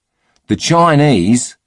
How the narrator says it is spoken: bellowed a drunken Australian

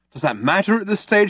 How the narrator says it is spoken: shouted Arthur

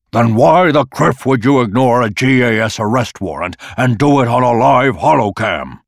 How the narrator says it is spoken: he was nearly shouting

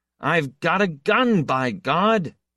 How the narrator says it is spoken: he yelled in triumph

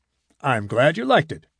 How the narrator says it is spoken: Hadfield chuckled

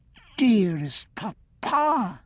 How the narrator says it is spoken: Bridget whispered

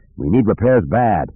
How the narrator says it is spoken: said through gritted teeth

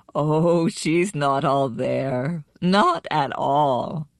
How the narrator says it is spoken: Nanatila laughed and said

